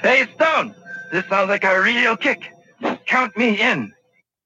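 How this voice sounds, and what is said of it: Character voice, vaguely Asian accent. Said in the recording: “What is that accent? ... That sounded vaguely Asian to me. ... It did sound vaguely Asian.”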